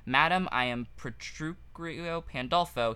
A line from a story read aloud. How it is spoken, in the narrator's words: he stammered